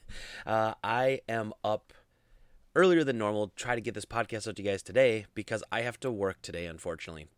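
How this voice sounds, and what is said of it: Groggy, low morning voice. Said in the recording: “if I sound a little groggy, a little low voice, it's because it's pretty early this morning.”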